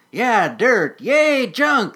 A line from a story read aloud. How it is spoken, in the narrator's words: shouted